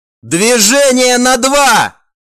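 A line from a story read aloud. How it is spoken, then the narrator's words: Commander shouting. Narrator (Russian): прокричал командир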